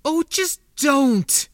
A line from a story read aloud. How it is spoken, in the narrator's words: Yumani spat, finally feeling the frustration and futility of it all spill over